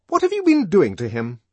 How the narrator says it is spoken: she demanded fiercely

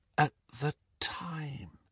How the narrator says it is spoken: she finished in a whisper

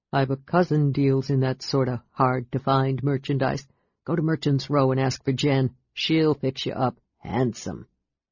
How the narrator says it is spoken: In a low voice, the guard added

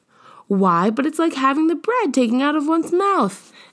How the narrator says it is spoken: exclaimed Mrs

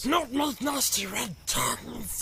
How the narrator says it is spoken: hissed Gollum

